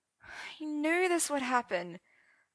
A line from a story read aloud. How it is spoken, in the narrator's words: Arthur sighed, soaping his tear-streaked cheeks